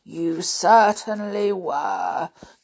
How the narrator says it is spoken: growled the father bear softly

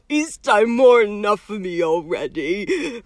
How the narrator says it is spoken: groaned Hagrid

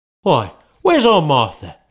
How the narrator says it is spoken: cried Bob Cratchit

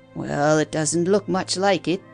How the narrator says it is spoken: grumbled the old fellow

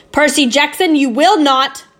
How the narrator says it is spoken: I shouted

